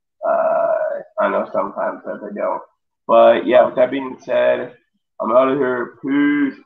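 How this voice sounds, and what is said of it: Sick-sounding voice. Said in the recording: “if you can tell by my voice, I am sick”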